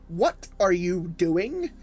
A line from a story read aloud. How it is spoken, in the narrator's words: Albert cried out in a condescending fashion